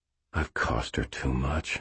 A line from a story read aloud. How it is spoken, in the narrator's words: I said quietly